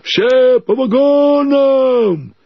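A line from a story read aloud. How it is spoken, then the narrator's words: Shouting. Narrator (Russian): закричали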